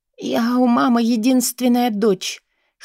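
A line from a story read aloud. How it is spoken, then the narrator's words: Hoarse voice. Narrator (Russian): хриплю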